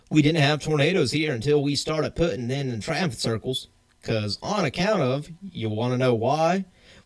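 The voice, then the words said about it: Put-on Southern US accent. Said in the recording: “you sounded like you were from the South ... I try to give him some form of accent ... I gave him that accent”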